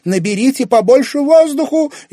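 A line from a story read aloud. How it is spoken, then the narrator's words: Hysterical shout. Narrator (Russian): истерично крикнула Карина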